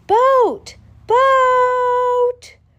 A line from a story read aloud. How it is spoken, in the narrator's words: little toy boat excitedly